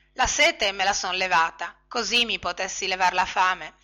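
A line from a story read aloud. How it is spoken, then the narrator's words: Low mumble. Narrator (Italian): borbottò a mezza voce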